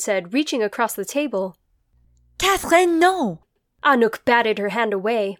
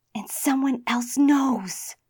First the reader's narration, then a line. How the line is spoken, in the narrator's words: Grace breathed